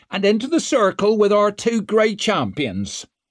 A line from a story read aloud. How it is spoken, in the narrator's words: cried Isern